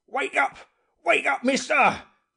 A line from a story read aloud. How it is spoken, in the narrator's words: he shouted